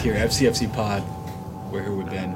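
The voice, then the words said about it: Smooth, sultry, soothing voice. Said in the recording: “sexy voice ... your voice is so soothing in traffic”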